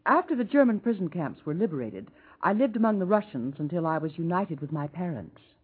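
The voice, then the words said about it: Russian accent. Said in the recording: “you speak with a Russian accent”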